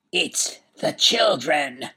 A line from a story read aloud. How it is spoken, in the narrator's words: croaked the Duke